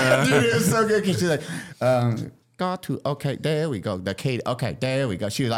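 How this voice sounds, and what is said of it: Usual voice. Nothing is said of it.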